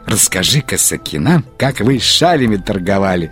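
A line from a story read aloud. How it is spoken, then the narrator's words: Plain woman's voice. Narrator (Russian): сказала одна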